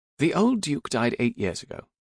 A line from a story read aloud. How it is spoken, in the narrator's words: Emily said